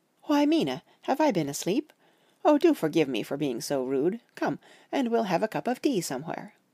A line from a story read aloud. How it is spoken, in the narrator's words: said to me quite cheerfully